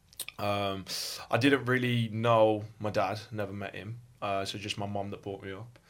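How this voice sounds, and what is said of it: Birmingham accent. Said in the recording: “as you can tell from my accent, I'm from Birmingham”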